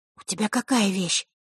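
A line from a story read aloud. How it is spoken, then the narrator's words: Whispered. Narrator (Russian): шепнула Василиса Захарре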